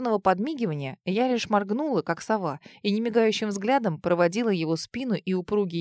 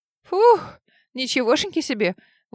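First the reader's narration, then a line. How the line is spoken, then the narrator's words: Hot breathless exhale. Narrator (Russian): Выдохнула горячий воздух, обжигающий легкие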